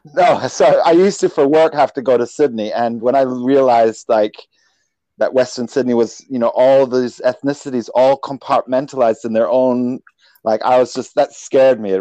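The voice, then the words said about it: Mixed, hard-to-place accent. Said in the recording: “your accent's very mixed ... I get Irish a lot”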